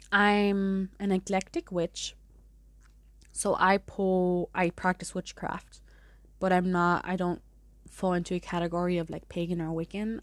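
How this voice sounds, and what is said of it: German-accented English. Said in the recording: “As you can hear, I have an accent... you may hear my German through some pronunciations”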